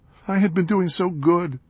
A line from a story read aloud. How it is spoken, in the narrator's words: he choked out between sobs